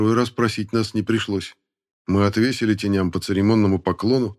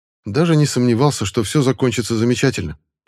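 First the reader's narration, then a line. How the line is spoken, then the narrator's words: Rapid patter. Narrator (Russian): протараторил Стрелецкий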